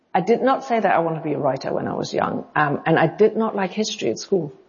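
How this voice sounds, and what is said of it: Non-native lilt, part English, part German. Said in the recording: “your accent is hard for me to figure out exactly. It's not quite English. It's not quite German. It's like a combination ... I get South African, I get Dutch, I get Scandinavia. I very rarely get German. But everybody knows that there's some lilt in there that is not English.”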